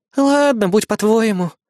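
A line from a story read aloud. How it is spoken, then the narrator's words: Resigned sigh. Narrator (Russian): обреченно вздохнула она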